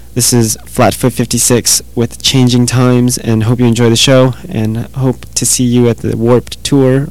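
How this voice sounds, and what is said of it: Hoarse, fading voice. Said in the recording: “I kind of lost my voice yesterday ... I'm slowly losing my voice again”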